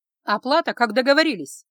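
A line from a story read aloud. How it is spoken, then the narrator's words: Barked. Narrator (Russian): рявкнула я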